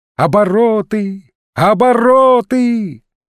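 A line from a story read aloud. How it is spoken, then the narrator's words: Shout after someone. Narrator (Russian): закричал вслед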